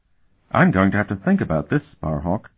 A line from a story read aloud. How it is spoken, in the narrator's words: Kring said in a disturbed tone of voice